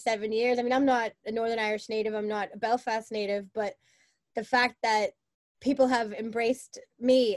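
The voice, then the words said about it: Boston American accent. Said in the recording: “of course my accent just stands out, and where are you from? And I'm from Boston.”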